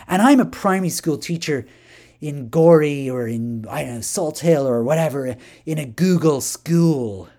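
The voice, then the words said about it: Put-on hybrid American accent. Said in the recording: “I'll try and get into my persona here ... I'm going to speak in a kind of hybrid American accent, even though I'm Irish.”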